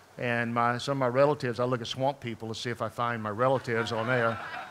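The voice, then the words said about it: Louisiana Southern accent. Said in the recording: “as you can tell, accent is not from Minnesota. My accent is from down in New Orleans in Baton Rouge, Louisiana.”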